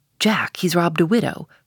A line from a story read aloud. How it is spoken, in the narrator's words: In their gamesome but still serious way, one whispers to the other